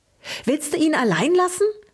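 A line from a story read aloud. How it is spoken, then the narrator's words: Excited squeak. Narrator (German): fiebte Luke aufgeregt, der als erster seine Sprache wiedergefunden hatte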